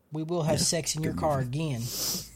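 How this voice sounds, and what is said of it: Put-on Southern accent. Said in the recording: “I give him a southern accent”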